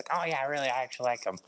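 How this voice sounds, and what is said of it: Imitates another person's voice. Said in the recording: “That's a really bad impersonation. I can't do a Daviasu impression”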